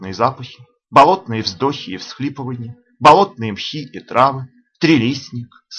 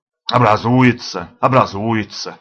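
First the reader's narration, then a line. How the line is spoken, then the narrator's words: Grumbled. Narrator (Russian): ворчал утеклый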